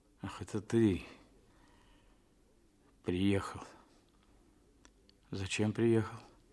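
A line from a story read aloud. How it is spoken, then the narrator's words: Dazed mumbling. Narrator (Russian): бормотал он, приходя в себя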